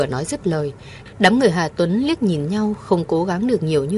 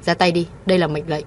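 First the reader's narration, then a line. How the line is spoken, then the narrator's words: Cold command. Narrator (Vietnamese): Cô lạnh lùng ra lệnh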